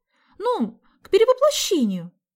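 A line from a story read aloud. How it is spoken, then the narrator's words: Annoyed exclamation. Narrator (Russian): с досадой воскликнула Соня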